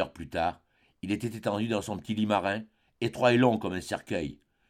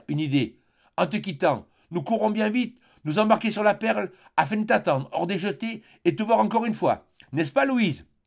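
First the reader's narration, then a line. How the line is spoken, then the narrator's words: Father exclaiming. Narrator (French): s'écria son père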